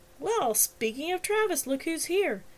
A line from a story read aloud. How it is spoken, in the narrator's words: Tilly exclaimed